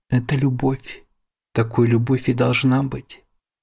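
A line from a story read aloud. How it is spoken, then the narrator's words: Soft smiling voice. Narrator (Russian): Мягко улыбнувшись, говорит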